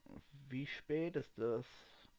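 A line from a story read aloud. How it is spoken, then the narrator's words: Quiet, yawning question. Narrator (German): fragte er leise nach und gähnte etwas auf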